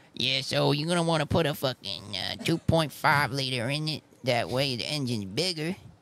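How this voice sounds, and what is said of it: Imitates another person's voice. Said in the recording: “your other voice ... your Jay Leno”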